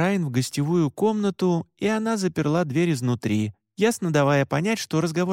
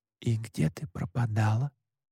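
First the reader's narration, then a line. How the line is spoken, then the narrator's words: Whispered question. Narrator (Russian): шепотом спросил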